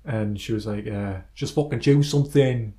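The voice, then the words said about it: Put-on Yorkshire accent. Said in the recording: “strange accent ... That was Yorkshire, wasn't it?”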